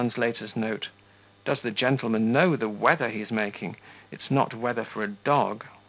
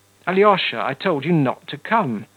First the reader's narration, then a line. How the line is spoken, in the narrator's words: he cried fiercely to his brother